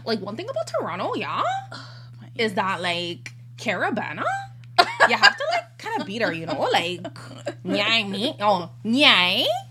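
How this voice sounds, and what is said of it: Put-on sing-songy Toronto accent. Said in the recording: “I don't know why the Toronto accent is so sing-songy.”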